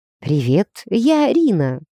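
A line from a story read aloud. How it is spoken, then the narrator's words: Timid, smiling. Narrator (Russian): робко улыбнулась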